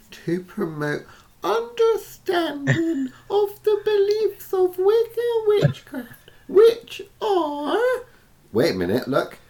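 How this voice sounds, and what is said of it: Wimpy, wet, feeble voice. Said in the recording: “do a wimpy voice? I'll do a wet white voice.”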